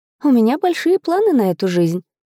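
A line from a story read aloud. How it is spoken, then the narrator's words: Smiling sigh, hidden nerves. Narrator (Russian): вздохнула, улыбаясь, пытаясь скрыть свое волнение за маской уверенности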